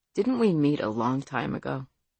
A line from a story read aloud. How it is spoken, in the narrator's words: he asked quietly